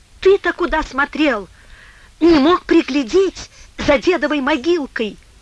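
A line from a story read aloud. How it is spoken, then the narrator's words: Shrill question. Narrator (Russian): визгливо спросила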